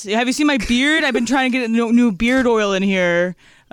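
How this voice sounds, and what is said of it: Character voice of a stereotyped guy. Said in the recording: “my IPA guy impression”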